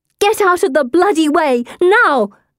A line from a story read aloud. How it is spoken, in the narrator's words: I shout